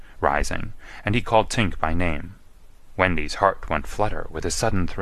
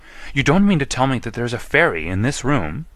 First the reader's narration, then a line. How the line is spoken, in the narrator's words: she cried, clutching him